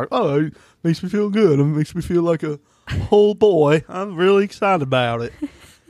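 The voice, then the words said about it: Imitates another person's voice. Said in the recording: “That accent was pretty close, though. That's exactly how he sounds.”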